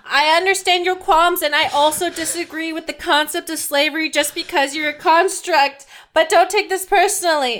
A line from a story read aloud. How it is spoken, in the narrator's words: yell